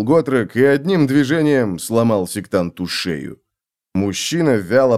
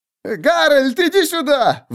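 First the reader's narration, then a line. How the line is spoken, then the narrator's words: Shrieked. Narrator (Russian): Взвизгнул человек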